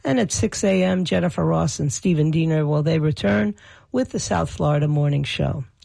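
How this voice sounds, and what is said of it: Raw, strained hoarse voice. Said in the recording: “my voice is still weird since all this screaming I did ... my voice is still raw”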